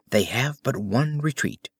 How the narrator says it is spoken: whispered Holmes

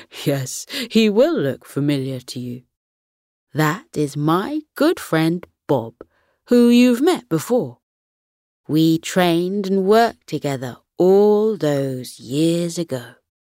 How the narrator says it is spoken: Grandpa Gus chuckled and replied

